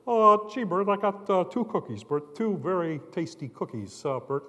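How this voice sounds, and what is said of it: Ernie from Sesame Street impression. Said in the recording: “impersonations of different characters ... I could do all the Muppet characters. I'd go into a department store and I'd pick up Ernie and Bert.”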